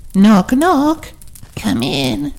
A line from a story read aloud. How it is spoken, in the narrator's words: said Cubby in an old woman voice